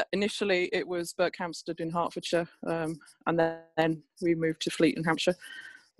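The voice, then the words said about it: Southeast English accent. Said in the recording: “despite my accent, I'm a Bridgend girl ... moved to the southeast of England ... that's why I've got this daft accent”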